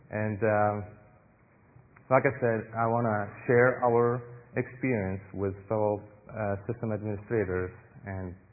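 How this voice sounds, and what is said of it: Non-native accented English. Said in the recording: “she finds my accent good way to let her fall asleep”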